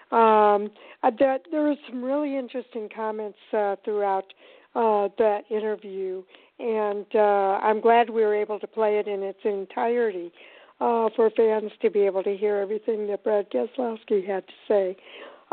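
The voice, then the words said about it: Strained voice, labored breathing. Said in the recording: “my voice is still giving me a little bit of a hard time, I'm having a little bit of a hard time breathing here”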